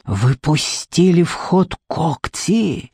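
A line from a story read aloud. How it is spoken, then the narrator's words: Breathless. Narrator (Russian): выдохнул он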